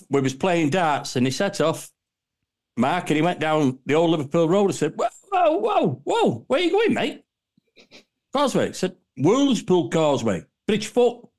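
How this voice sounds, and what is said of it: Local Warrington English accent. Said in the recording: “your Warringtonian accent ... Your local accent”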